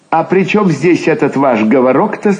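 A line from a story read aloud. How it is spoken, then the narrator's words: Plain. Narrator (Russian): спросил он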